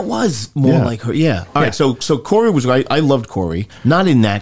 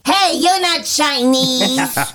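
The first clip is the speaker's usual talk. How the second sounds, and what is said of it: Imitates another person's voice. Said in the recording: “That's my Scott impression. ... Well, it was more like Frank Costanza's mom”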